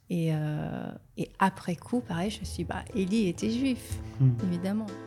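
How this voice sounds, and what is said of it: Slight Israeli accent in French. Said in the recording (French): “il y a aussi un petit accent hébraïque, israélien ... il y a une intonation israélienne dans votre parler”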